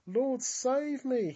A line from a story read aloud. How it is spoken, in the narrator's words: he cried out